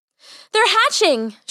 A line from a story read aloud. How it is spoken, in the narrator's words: she cried joyously